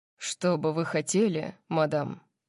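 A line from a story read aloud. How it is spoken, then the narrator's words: Formal butler-like question. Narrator (Russian): спросил он официальным тоном, который чертовски напоминал дворецкого Акруксов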